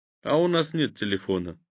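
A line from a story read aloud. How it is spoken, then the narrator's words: Calm man's voice. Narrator (Russian): спокойно сказал мужик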